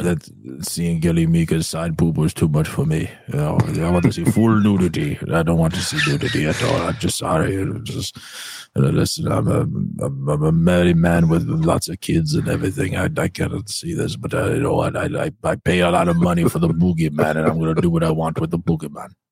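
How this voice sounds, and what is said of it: Impression of another person's voice. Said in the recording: “doing an impression of Mustafa Rickard”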